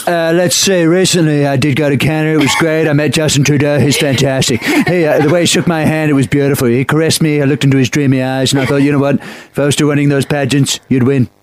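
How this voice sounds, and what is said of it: Donald Trump impression. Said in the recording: “we'll go with Trump first ... not only was the voice good, but the accent was good”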